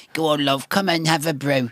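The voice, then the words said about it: Weak put-on northern English accent. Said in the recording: “that's a pathetic northern accent.”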